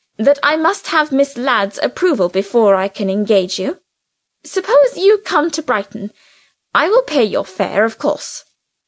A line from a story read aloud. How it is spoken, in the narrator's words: Francine replied sharply